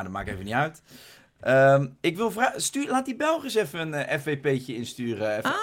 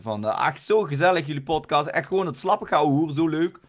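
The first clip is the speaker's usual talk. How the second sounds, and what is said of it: Put-on Limburg accent. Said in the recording (Dutch): “Dit is nou, gewoon Limburg, een beetje Limburg.”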